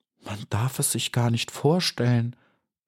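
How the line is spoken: Sad whisper. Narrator (German): flüsterte traurig

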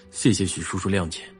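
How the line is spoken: Flat, indifferent reply. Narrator (Chinese): 他反应淡淡，最后只回了一句

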